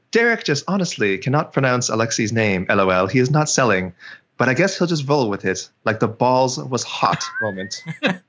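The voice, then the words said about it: Put-on classy reading accent. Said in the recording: “I'll read this with an accent to class it up a little bit. ... reads a classy tweet ... It's a new character I'm working on.”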